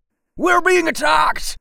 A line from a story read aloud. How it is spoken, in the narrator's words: he yelled